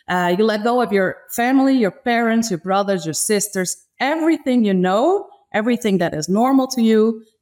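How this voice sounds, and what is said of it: Non-native English accent. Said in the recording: “as you can hear, I have an accent and I still make little mistakes every day”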